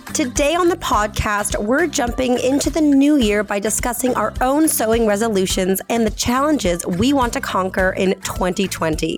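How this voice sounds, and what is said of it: Congested voice from a cold. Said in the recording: “I'm just recovering from a cold, so please excuse my voice ... I feel a lot better than I sound. It's still a bit like sinus achy”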